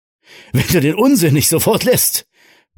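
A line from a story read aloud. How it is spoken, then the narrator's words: Laughing, then coughing fit. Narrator (German): begann er lachend, bevor er von einem heftigen Hustenkrampf übermannt wurde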